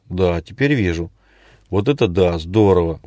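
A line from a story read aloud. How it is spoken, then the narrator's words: Exclamation. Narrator (Russian): воскликнул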